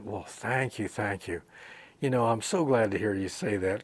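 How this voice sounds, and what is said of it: Sarcastic delivery. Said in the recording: “this was sarcasm.”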